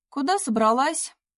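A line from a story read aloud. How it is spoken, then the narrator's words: Shouted after her. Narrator (Russian): крикнул ей вслед Кирилл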